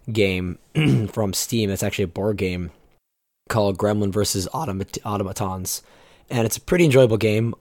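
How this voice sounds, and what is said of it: Scratchy voice. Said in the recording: “my voice sounds a little on the scratchy side. I was recovering from a ailment”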